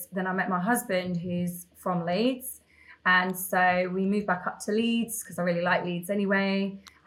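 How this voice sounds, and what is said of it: Non-northern English accent. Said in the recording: “your accent is not a northern one.”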